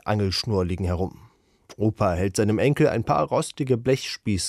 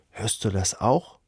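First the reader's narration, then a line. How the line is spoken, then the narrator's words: Whispering. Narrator (German): flüstert er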